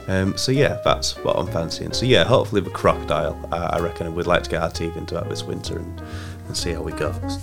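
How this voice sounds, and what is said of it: Congested voice from a cold. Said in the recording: “my voice is so lovely with my cold ... this horrible voice”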